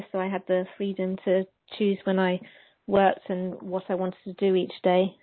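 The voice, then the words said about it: Southern English accent. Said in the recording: “I noticed an accent from you and that you're not from anywhere in the States here. You're across the pond ... I'm in the south of England in the UK.”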